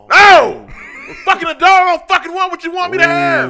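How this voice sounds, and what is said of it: Yelling angrily. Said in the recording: “I'm yelling here because I can't yell at home.”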